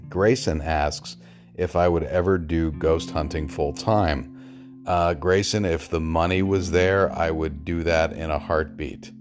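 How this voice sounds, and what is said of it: Strained, failing voice. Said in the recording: “my voice is giving out on me”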